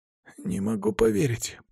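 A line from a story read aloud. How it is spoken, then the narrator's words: Muttered under breath. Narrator (Russian): пробормотал под нос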